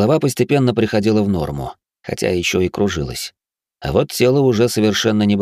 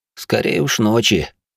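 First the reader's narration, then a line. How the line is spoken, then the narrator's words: Grumbling. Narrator (Russian): пробурчал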